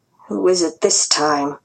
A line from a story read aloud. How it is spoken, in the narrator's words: muttered